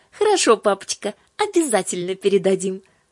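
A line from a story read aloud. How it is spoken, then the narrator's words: Sisters speaking cheerfully. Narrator (Russian): сказали сестры и весело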